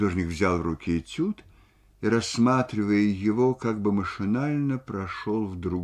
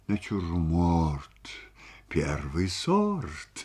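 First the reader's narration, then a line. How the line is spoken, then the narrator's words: Muttering. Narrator (Russian): бормотал он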